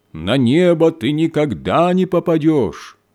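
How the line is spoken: Loud shout down chimney. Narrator (Russian): студент громким голосом прокричал в трубу камина

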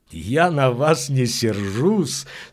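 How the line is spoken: Laughing. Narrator (Russian): смеялся он

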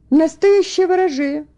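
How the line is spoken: Exclaim. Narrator (Russian): воскликнул Фредерик Лин

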